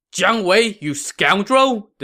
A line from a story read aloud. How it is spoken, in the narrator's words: this general shouted